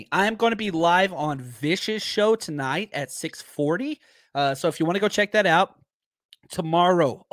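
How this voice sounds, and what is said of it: Strained, worn-out voice. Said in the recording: “getting choked up over here. My voice is not recovered from the draft”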